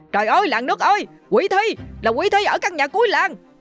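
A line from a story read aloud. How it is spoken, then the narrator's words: Man shouting while running. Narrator (Vietnamese): Vừa chạy ông ta vừa hét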